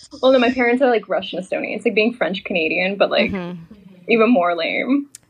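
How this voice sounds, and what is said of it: American accent. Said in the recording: “have an American accent”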